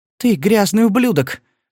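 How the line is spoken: Exclaiming. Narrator (Russian): воскликнула она

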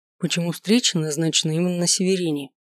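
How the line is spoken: Quiet question. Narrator (Russian): тихо спросил я

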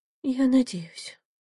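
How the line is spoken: Quiet. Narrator (Russian): тихо сказала Яна

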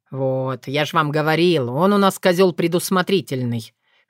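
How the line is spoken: Wry snort. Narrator (Russian): хмыкнул Соколовский

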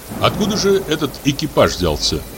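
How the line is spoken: Plain. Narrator (Russian): спросил я

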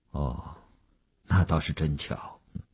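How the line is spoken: Flat, indifferent. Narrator (Chinese): 吴长天淡淡地说

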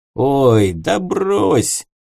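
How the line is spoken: Jailer's snort. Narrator (Russian): хмыкнул тюремщик

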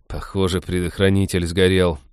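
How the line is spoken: Unhappy voice. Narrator (Russian): несчастным голосом сказал Натан

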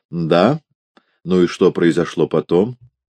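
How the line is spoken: Dry question. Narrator (Russian): Судья сухо спросил

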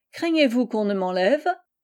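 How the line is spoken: Laughing. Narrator (French): fit Marie en riant

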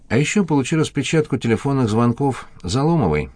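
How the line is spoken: Sighing. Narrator (Russian): Горбатов вздохнул

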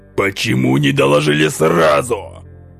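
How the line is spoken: Growled. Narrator (Russian): рыкнул на него безопасник

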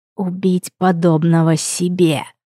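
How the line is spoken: Hoarse angry wheeze. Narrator (Russian): Просипел куратор от злости

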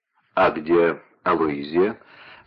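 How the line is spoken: Plain. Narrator (Russian): спросила Констанца

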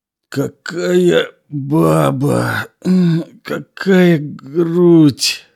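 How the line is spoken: Moaning victim. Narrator (Russian): стонал потерпевший

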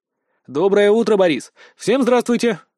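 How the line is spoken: Exclaiming. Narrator (Russian): воскликнул

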